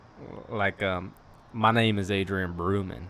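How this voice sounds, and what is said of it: Deep country-style voice. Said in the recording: “Give me your name in a country voice ... Look at that man of a voice.”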